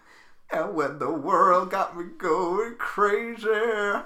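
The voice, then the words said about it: Imitates another person's singing voice. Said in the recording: “That sounded so Cher ... You are Cher. ... best Cher impression ... You're quite good at Cher though.”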